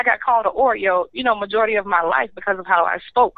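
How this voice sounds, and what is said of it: Clear, proper accent, no southern drawl. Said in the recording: “My dialect is clear. I don't have that southern drawl. ... oh, she's proper”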